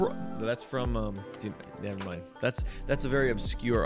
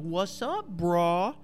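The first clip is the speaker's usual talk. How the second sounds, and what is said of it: Bad impression of a character's accent. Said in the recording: “do a really bad impression ... accents are bad. I can't even do the accent.”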